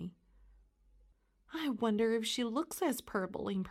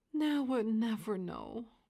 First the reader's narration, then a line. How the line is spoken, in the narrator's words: sighed Tommy